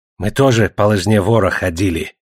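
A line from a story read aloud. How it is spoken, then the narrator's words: Angry. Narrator (Russian): сердито ответил Гольд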